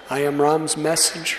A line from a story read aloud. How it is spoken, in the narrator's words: Hanuman pleaded with her